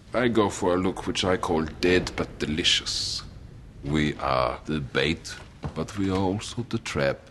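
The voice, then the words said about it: Attempted German accent. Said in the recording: “He's German. ... It's as close to a German accent as I can do.”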